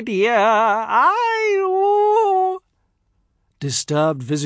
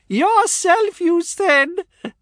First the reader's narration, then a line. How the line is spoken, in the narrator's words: Reshum Bibi wailed